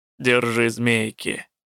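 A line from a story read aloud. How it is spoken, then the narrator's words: Muttering. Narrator (Russian): буркнула Чуа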